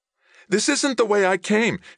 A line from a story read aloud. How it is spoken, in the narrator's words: yelped